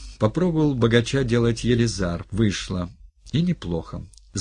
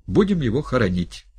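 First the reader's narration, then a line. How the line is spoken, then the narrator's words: Exclaiming. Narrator (Russian): воскликнул Ганя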